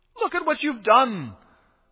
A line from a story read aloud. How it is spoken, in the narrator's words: cried the carpenter